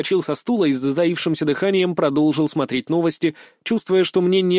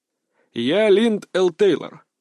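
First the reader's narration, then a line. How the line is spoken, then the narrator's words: Muffled voice from a screen. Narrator (Russian): глухо заговорил человек с экрана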